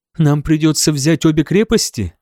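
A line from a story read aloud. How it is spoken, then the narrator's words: Timid question. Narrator (Russian): спросила Этельфлет робко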